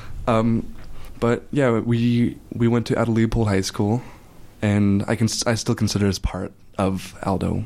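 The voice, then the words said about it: Dry, strained voice. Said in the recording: “my voice is a little dry because I just got done yelling through a megaphone for most of the march”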